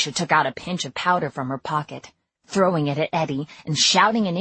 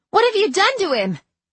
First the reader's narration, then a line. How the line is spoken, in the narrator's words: I cried